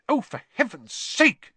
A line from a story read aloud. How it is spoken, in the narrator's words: she snapped